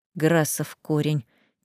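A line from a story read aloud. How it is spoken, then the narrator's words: Quiet grumbling. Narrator (Russian): тихо пробухтел он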